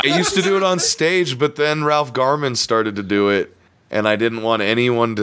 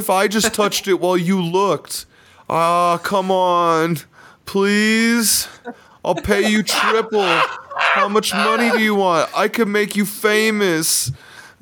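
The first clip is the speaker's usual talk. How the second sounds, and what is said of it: John Travolta impression. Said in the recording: “that John Travolta impression”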